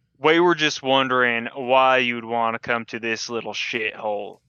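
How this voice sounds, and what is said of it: Exaggerated drunken slurring voice. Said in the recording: “I'm gonna play up my drunkenness”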